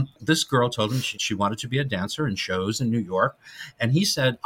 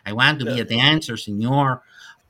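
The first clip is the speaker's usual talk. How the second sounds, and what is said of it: Put-on Mexican accent. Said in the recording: “She said it in a Mexican accent.”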